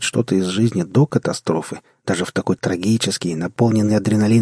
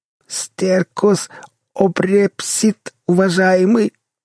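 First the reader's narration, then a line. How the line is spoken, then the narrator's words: Groaning, choking on blood. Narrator (Russian): простонал Эбер, захлебываясь хлещущей из носа кровью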